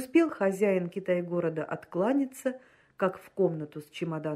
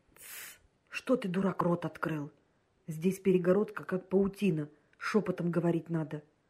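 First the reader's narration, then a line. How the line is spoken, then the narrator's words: Angry whisper. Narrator (Russian): прошептал Патмосов сердито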